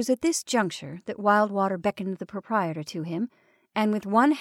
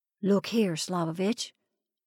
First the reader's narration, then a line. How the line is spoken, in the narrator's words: Wildwater whispered hoarsely